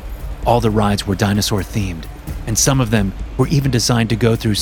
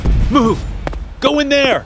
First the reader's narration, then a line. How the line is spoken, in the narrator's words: I yelled